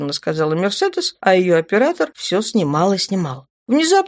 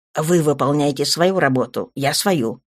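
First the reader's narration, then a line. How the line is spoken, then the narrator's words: Growling man. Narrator (Russian): зарычал капитан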